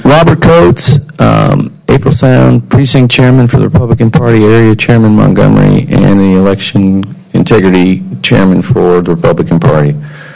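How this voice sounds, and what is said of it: Hoarse, worn-out voice. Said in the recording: “losing my voice, talking to too many people.”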